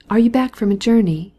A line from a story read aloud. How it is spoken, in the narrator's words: asked the Baroness